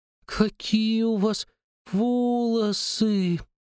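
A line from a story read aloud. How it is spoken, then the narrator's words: Drawling. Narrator (Russian): протянула она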